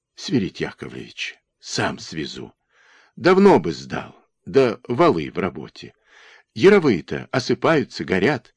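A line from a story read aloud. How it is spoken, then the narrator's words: Whisper through parched lips. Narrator (Russian): Денисенко прошептал запекшимися губами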